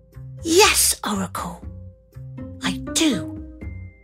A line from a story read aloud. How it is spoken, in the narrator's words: he answered